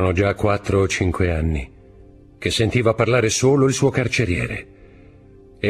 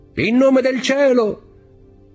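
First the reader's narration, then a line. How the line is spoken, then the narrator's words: Shouting. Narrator (Italian): gridò Dantes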